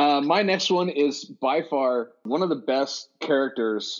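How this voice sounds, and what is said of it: Usual voice. Nothing is said of it.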